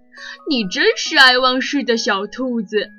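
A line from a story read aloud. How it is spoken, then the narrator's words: Croaking laughter. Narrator (Chinese): 欢欢呱呱呱地笑了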